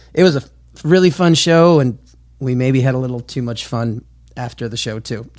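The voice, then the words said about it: Slightly raspy, hoarse voice. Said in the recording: “I'm a little bit, little raspy today ... So I'm a bit hoarse.”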